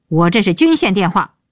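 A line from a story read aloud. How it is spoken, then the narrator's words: Shouting into phone. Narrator (Chinese): 鹏飞对电话大吼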